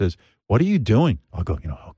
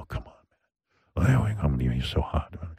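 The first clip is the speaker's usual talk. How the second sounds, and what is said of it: Put-on sexy voice. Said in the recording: “I have my sexy voice. ... This is creepy.”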